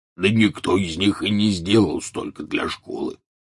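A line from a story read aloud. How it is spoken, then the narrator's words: Grumbling. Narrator (Russian): проворчал Хагрид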